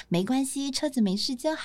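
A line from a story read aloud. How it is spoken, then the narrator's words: Gentle and calm. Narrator (Chinese): 警察先生非常温柔而且淡定的说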